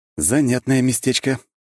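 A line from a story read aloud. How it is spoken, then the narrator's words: Snort. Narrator (Russian): хмыкнул я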